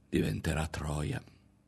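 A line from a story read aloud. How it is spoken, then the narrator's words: Woman's murmur. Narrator (Italian): si limitò a mormorare la donna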